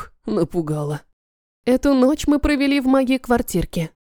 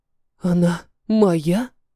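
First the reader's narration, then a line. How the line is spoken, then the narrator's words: Breathed out. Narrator (Russian): выдохнул Парамонов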